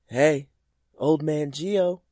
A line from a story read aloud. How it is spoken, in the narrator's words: yelled from the fence